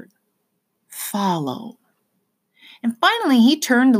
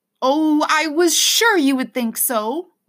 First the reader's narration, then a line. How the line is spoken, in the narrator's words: Lena cried